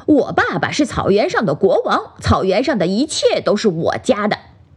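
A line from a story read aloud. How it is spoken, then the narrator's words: Angry young roar. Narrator (Chinese): 小狮子生气地吼道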